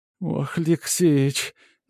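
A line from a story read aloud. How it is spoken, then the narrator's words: Sobbing like a child. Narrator (Russian): зарыдала Матрена как дитя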